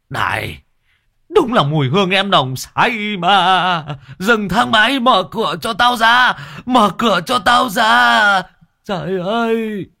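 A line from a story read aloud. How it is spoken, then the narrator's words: Screaming. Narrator (Vietnamese): Một người tài xế gào lên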